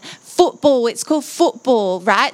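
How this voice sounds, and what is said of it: Deliberately bad English accent. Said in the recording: “I'm going to do a really bad English accent”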